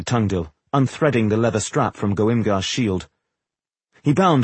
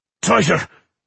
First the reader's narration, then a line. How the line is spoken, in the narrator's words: growled the mason